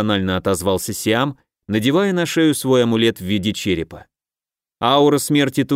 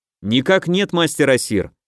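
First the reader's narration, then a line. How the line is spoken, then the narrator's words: Brisk, cheerful report. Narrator (Russian): бодро отрапортовал я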